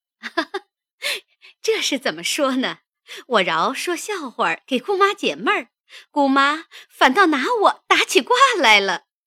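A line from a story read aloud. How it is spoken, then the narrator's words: Laughing. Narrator (Chinese): 凤姐儿笑道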